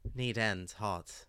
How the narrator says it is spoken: Her mouth still around the tangle of wire, she mumbled

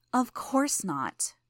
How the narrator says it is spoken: said, sighing

